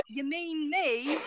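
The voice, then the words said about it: Put-on British accent. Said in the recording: “I'll give her an accent. ... make her British. ... Oh man, that was better than I thought.”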